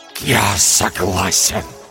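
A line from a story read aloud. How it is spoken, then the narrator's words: Forced out reluctantly. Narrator (Russian): выдавил он наконец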